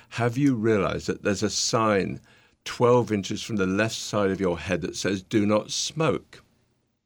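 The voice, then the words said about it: British accent. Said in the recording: “my nice British accent”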